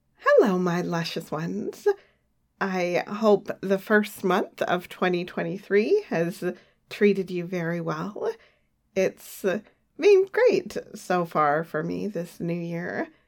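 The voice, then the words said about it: Congested voice from a cold. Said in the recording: “if you can't tell from the sound of my voice, I have a cold or something”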